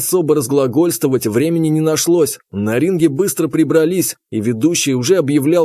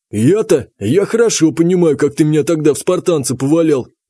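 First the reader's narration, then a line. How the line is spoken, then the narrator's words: Snort. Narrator (Russian): Танк хмыкнул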